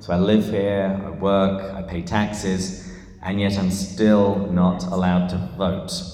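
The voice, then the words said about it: English accent. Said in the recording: “this is not a San Diegan accent. I am from England”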